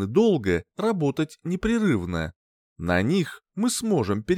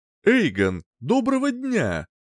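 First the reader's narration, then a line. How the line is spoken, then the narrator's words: Cheerful. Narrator (Russian): начал бодро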